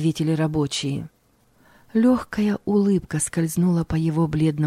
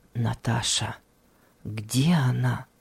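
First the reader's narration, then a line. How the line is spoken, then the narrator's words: Barely audible. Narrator (Russian): едва слышно произнес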